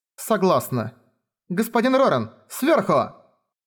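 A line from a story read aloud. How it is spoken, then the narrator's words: Shouting. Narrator (Russian): Девушка … закричала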